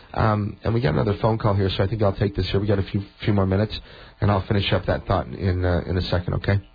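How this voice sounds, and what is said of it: Slightly hoarse voice. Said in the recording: “I'm getting a little hoarse toward the end of the program here because I've been talking too much”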